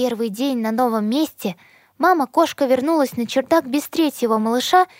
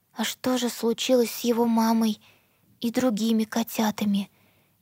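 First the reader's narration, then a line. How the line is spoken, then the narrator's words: Quiet. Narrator (Russian): тихо произнесла Эмбер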